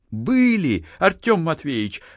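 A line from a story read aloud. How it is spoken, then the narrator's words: Exclamation. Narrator (Russian): воскликнула Дуняшка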